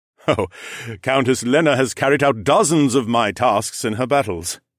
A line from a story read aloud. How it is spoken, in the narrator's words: Aaron chuckled